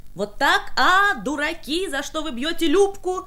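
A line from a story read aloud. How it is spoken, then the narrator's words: Shrieking. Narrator (Russian): завизжала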